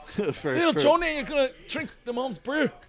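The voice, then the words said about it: Poor put-on Scottish accent. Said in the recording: “the Scottish guy ... This is just a butchering accent ... the Scottish comedian? It sounds like that.”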